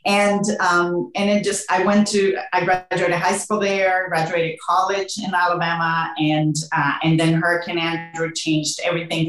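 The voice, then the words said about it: Spanish accent with Southern touches. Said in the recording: “a little bit of a Southern accent at times with my Spanish accent”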